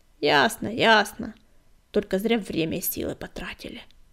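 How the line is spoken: Habitual grumbling. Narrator (Russian): привычно проворчал Быстролап

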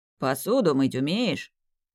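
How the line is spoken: Deep male bass. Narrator (Russian): пробасил мужик

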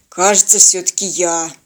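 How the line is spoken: Dejected conclusion. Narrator (Russian): уныло заключил парень

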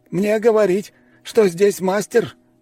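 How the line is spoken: Exclaiming. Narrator (Russian): воскликнул он

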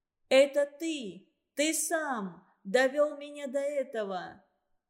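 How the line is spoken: Shout. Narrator (Russian): крикнула Анна

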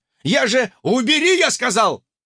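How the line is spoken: Barked. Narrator (Russian): рявкнул сосед

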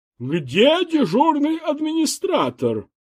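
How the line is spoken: Loud question. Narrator (Russian): громко спросила

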